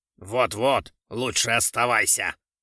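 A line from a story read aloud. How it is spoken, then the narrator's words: Menacing. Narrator (Russian): грозно сказал генерал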